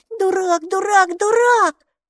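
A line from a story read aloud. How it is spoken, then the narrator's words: Screaming. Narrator (Russian): закричала Майки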